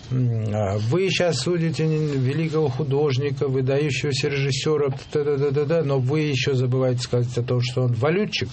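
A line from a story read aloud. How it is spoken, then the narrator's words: Plain. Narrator (Russian): сказал Гурам Тугуши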